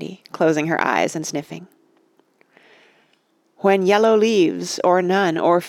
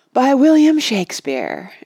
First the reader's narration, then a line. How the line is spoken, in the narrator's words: added Oliver, with a loud sigh